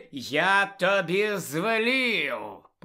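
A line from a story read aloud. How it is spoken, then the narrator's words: Hissed. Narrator (Ukrainian): просичав Снейп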